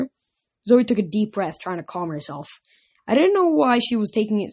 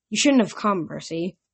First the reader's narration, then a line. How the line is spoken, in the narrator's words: Thaya said grimly